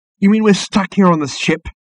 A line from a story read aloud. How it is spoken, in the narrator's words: exclaimed Ford, suddenly losing patience with the whole charade